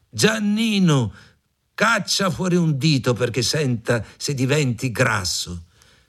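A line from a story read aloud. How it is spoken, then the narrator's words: Old woman shouting. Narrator (Italian): la vecchia gridava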